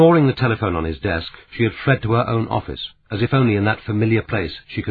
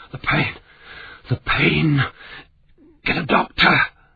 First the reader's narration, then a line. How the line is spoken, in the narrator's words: He gasped